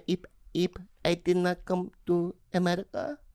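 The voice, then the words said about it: Impression of his mother. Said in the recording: “that's a pretty good impression, pretty good.”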